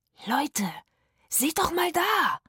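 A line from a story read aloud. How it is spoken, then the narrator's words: Gasped. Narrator (German): japste Rufus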